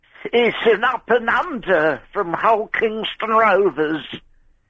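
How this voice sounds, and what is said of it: Eddie Waring impression. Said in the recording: “can you do different voices and accents? ... I'm doing an accent. ... A topical one. ... Eddie Waring.”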